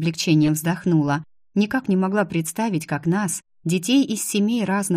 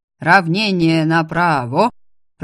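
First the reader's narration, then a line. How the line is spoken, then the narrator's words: Deep booming bass. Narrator (Russian): Прогудел над аллеей густой бас профессора Гарнета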